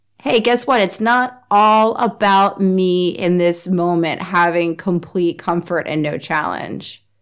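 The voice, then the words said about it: Congested, stuffy voice. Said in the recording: “You can probably hear it in my voice. Having a lot of allergy issues.”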